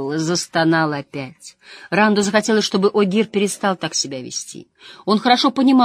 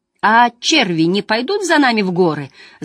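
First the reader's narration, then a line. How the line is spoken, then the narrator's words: Breathless question. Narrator (Russian): задыхаясь, спросил Эгвейн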